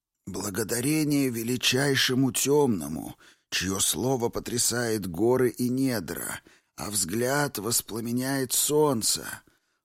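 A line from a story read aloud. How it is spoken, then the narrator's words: Creaky old man. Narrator (Russian): Проскрипел старик на вполне удовлетворительном имперском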